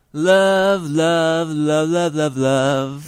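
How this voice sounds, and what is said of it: Nasal sung imitation of a song. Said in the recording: “my impression of the opening of the song ... that kind of nasal quality to his voice”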